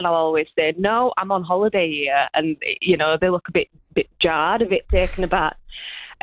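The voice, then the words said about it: Yorkshire accent. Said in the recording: “my accent, my Yorkshire accent”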